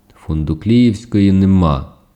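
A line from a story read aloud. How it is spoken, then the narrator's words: Stern reply. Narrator (Ukrainian): суворо відповів Явень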